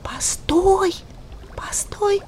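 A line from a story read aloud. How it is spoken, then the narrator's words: Whisper. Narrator (Russian): шепотом сказала ему Роза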